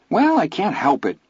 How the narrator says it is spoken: Vern said, his voice defensive

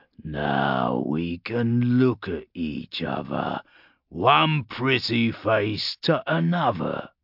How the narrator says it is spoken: Urgork growled

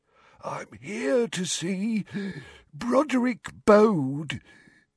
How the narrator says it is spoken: he wheezed

